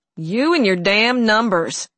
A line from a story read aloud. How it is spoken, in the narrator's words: Nanny growled